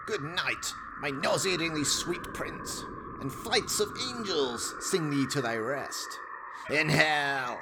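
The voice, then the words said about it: Evil, menacing character voice. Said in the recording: “an evil voice echoes from the ether, laughing”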